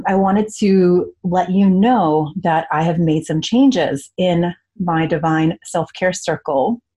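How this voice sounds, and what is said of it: Strained, worn-out voice. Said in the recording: “excuse my voice today, I've been talking all morning on client calls”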